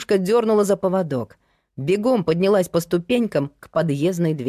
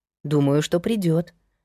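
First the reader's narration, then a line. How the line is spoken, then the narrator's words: Soft reply. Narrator (Russian): мягко отозвалась Лена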